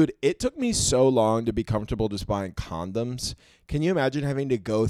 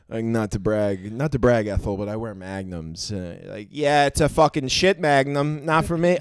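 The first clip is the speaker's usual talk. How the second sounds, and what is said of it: Put-on old Jewish accent. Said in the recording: “I don't know what accent that is. ... Like, old Jewy, kind of.”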